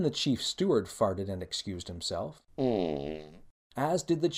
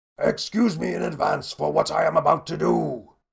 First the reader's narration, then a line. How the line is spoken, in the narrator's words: bellowed the chief inquisitor